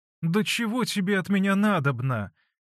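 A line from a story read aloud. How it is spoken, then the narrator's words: Sly laughing question. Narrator (Russian): Смеясь и лукаво щуря глаза, спросила Фленушка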